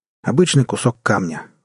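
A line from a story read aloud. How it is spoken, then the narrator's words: Cold, matter-of-fact. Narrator (Russian): холодно констатировал Джек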